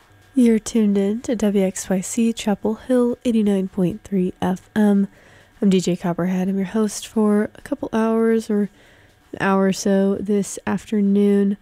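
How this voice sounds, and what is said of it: Sick, affected voice. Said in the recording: “apologize for my voice. I've come down with a little something... now sounds like I do”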